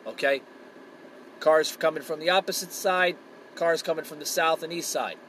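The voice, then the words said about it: New Jersey accent. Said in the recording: “I'm from New Jersey, born raised. As you can tell of my accent.”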